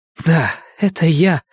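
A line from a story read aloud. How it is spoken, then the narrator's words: Hoarse whisper. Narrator (Russian): хрипло прошептала она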